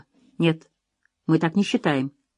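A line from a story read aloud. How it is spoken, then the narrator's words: Even, level voice. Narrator (Russian): ответил Тобиас ровным голосом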